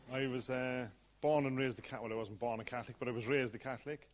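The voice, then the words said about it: Irish accent. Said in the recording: “As you can tell from the accent, I'm Irish, born and bred.”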